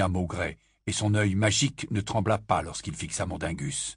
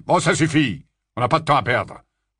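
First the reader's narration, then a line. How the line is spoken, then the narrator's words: Growled. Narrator (French): gronda Maugrey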